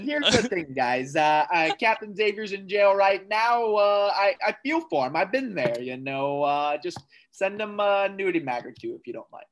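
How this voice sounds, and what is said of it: Imitates another person's voice. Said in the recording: “my Marcus impression ... that's a pretty good Marcus”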